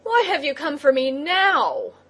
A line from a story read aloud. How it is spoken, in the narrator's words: he cried angrily to the crab